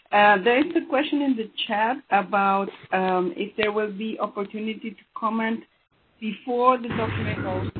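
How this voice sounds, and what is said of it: Hoarse, congested sick voice. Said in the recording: “Sorry for my voice. I have a horrible cold.”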